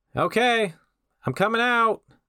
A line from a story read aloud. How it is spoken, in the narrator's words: the werewolf yelled to the police